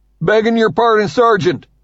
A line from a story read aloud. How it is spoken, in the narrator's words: hollers